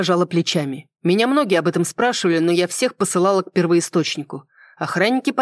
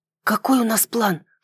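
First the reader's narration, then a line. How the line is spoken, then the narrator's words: Whispered question. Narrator (Russian): шепотом спросила я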